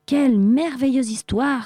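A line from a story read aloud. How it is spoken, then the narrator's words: Sultan exclaiming. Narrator (French): s'écria le sultan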